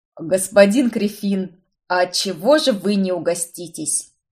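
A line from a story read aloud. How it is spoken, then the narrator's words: Booming drone. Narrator (Russian): прогудел он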